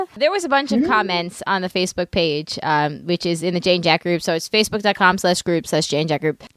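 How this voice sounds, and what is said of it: New York Brooklyn accent. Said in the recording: “32 years of New York accent ... Brooklyn's back”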